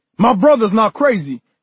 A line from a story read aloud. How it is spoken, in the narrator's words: Kenny snapped